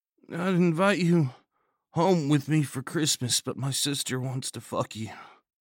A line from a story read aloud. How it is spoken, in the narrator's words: mumbled